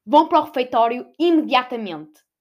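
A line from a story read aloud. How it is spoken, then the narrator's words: Headmistress shouting. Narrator (Portuguese): A diretora gritou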